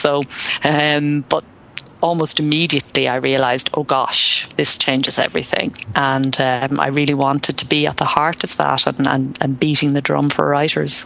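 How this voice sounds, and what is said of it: Irish accent. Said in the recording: “there's an Irish accent in there”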